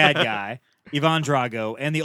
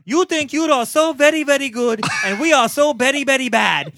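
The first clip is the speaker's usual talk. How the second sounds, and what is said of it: Imitating Brigitte Nielsen's accent. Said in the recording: “the ultimate chick with him, the Brigitte Nielsen ... What accent? ... That's her accent.”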